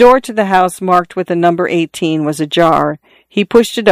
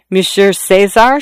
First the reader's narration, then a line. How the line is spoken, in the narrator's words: she stammered, as if she had known him a long time